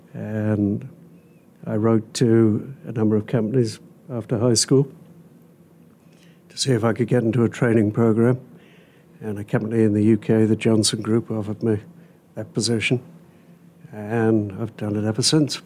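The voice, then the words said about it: British accent. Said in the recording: “you're from the UK, correct? ... So it's not a Hoosier accent that we're hearing there.”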